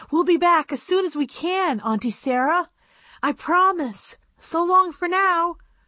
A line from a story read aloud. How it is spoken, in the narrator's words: Annabelle said desperately